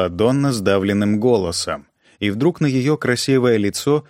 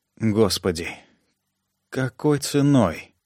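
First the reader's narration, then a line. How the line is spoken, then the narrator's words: Mutter. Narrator (Russian): пробормотала она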